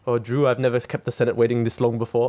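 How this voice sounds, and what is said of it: Imitated Danish accent. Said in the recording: “Is that his actual accent? ... He's got a good Danish accent.”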